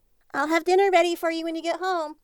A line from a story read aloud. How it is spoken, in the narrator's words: she called out to him